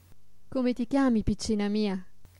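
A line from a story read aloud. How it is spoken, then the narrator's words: Fairy's gentle question. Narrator (Italian): le chiese la fata, sollevandole dolcemente il viso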